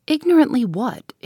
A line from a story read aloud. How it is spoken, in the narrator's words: inquired Miss Halcombe sharply